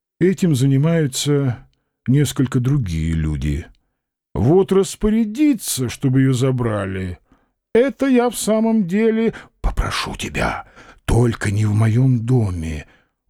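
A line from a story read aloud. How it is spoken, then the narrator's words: Flat, dull, muffled. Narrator (Russian): уронил профессор все так же бесцветно и глухо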